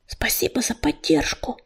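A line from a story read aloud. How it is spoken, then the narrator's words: Whispered. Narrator (Russian): шепнул он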